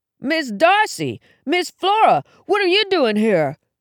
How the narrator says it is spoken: he yelled

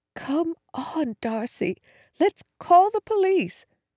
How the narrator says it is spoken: Again she whispered

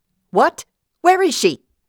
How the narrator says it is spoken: Vida yelled

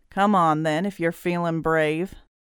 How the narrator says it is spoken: Grinning, he sneered

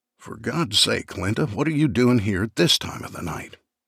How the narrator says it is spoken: said, hissing the words

